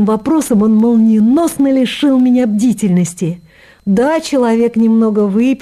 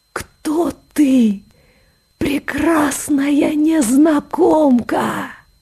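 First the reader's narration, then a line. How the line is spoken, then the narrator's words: Whisper. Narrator (Russian): зашептал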